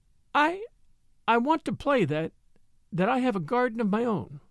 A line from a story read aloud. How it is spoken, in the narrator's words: she stammered